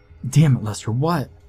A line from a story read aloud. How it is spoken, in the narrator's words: his voice failed him